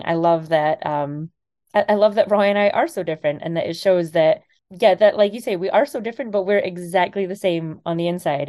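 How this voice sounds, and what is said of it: Slight Scottish accent. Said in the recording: “You have a little bit of an accent. ... I'm originally from Scotland.”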